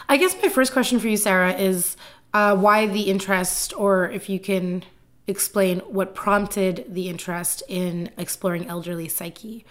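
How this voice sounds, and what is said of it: Hoarse, fading voice. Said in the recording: “Apparently, I'm losing my voice.”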